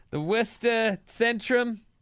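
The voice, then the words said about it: Exaggerated Boston accent. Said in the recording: “is that your Boston accent? It's excellent. It's really. It's great.”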